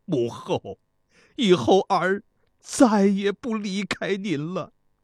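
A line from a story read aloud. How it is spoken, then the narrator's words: Crying. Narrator (Chinese): 公子教师哭泣地说道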